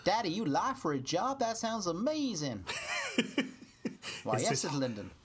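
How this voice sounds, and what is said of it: Put-on Texas accent. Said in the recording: “your amazing Texas accent”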